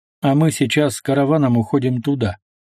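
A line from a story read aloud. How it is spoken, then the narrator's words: Dry curt reply. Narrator (Russian): сухо ответил Мазай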